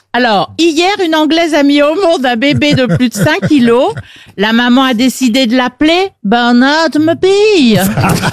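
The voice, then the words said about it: Well-done put-on accent. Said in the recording (French): “Elle le fait bien, en plus. ... Très bon accent.”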